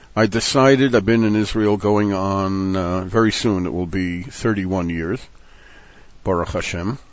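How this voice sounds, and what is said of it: American accent. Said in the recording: “I decided not to pretend to an accent and to keep my Mivta Amerikai, as it is known. So I give away my national origin when I open my mouth in any language.”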